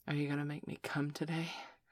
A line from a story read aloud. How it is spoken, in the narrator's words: she panted almost breathlessly